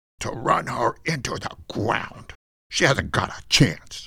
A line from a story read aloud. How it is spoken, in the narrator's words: under his breath, Bruno said